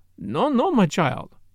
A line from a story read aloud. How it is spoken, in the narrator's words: said Poirot kindly